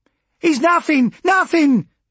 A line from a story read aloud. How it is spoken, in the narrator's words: she shrieked